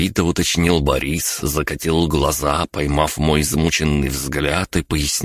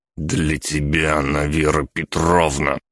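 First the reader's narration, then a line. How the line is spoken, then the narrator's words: Through gritted teeth. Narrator (Russian): процедил я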